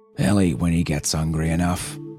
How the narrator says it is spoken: he growled

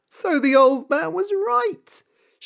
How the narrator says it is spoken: she said and laughed

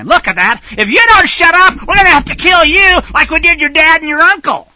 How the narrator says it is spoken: screeching at Kennedy saying

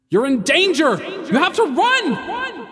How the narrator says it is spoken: the harbinger yelled

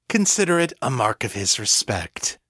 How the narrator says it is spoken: Braddock said dryly

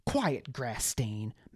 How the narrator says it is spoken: Baz snapped

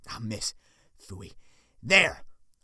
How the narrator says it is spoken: Foil shrieked

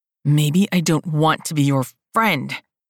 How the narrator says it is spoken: he barked

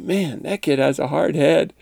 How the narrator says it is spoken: faintly the boy say

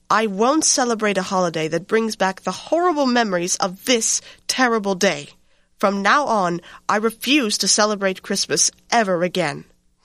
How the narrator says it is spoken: Caroline snapped

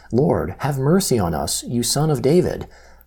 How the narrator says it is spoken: two blind men … cried out

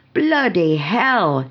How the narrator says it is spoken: she yelled

